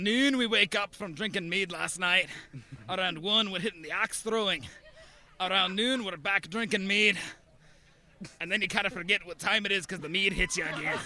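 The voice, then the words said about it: Put-on medieval Scottish-like accent. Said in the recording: “What is the accent? ... We think Scottish? ... Irish? ... It's just a medieval accent”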